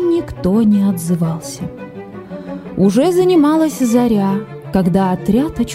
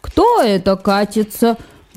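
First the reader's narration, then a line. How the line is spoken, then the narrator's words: Menacing question. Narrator (Russian): грозно спросил мистер Груффи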